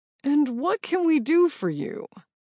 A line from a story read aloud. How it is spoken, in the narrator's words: Greg answered, his voice as tense as the air between Bash and me